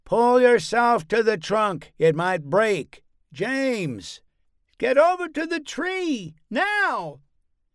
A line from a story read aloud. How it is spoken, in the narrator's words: His voice cracked as he screamed at James